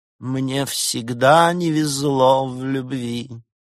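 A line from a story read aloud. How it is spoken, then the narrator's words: Dead flat voice. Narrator (Russian): мертвым голосом произнес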